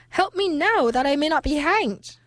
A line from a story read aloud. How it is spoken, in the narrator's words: cried the soldier